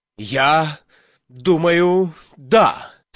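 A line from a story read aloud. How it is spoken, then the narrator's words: Rather agitated voice. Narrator (Russian): сказал Слакхорн довольно взволнованным голосом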